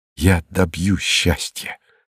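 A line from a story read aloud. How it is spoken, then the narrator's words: Feverish whisper. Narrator (Russian): шептал он лихорадочно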